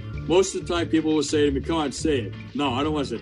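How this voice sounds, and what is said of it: New York accent. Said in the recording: “a real New York experience ... they love my accent.”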